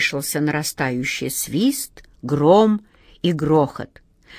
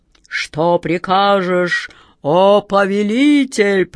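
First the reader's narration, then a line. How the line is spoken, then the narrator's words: Booming voice. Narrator (Russian): прогремел он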